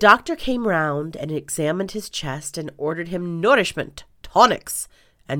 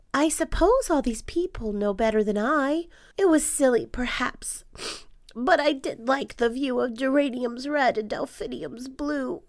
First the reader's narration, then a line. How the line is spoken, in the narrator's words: The dormouse looked out, and he said with a sigh